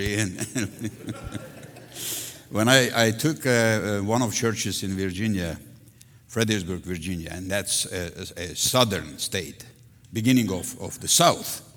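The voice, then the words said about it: Strong foreign accent. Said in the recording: “a preacher with a strong accent”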